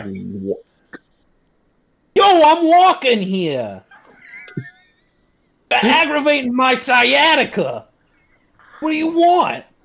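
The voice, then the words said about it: Put-on New York accent. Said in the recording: “did a pretty passable New York accent for a rat ... It's terrible”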